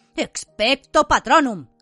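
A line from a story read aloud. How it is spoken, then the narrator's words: Shouted. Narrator (Spanish): gritó Harry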